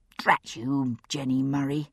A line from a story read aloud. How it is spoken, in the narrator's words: I murmured under my breath